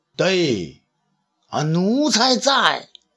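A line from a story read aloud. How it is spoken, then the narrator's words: Calling out. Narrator (Chinese): 武帝呢眼睛看着远方，叫道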